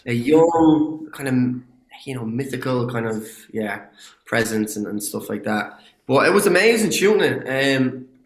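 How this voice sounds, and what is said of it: Irish accent. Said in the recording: “I get to use my own accent... that identity of being an Irish”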